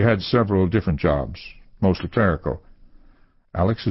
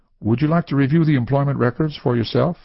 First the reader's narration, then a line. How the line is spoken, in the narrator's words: he responded quickly